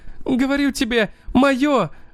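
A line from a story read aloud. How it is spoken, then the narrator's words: Screaming, sobbing with rage. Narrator (Russian): закричала Герда, рыдая от ярости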